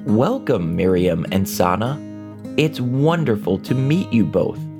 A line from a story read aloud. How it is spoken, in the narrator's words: Flavio exclaimed